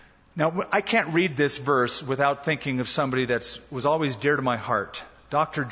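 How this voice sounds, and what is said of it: Usual voice. Nothing is said of it.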